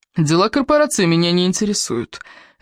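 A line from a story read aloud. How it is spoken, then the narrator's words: Lazy, bored, faintly curious. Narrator (Russian): лениво отозвался Кевин, но Элис все же удалось уловить в его скучающем тоне нотку любопытства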